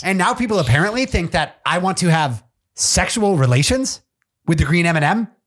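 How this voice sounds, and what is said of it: Imitates another person's speaking tempo. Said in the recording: “That's a horrible Tucker Carlson ... Terrible ... he's talking just like himself ... I'm not trying to do his voice. I'm doing his tempo.”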